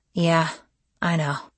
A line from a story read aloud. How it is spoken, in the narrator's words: I said sadly, recalling Tatiana's high-handed actions